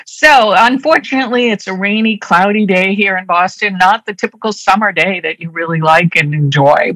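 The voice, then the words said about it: Strong Boston accent, dropped R's. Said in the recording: “I'm a native Bostonian. So as I'm speaking, you're going to probably hear me drop my R's a lot. So my Boston accent comes through very strong.”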